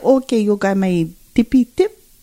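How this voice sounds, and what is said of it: Weak put-on African accent. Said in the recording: “He got a little accent ... Can you work on your African accent? ... that sounds like a little Hispanic”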